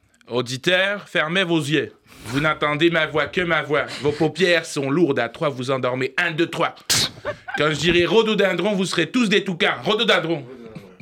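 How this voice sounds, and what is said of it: Put-on Québécois accent. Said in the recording (French): “C'est quoi cet accent ... c'était un cours par correspondance avec le Québec ... Arrête avec cet accent, s'il te plaît, ça devient très très gênant.”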